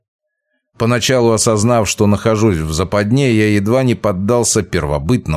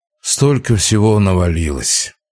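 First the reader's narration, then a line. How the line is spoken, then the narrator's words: Tired sigh. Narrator (Russian): устало вздохнул Вяземский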